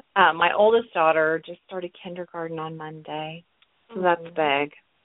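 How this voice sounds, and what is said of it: Voice affected by allergies. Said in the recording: “please excuse my voice, I'm having allergies.”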